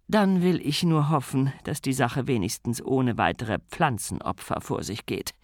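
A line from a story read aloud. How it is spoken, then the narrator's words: Sighing, weighty. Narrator (German): Sybil seufzte und sagte gewichtig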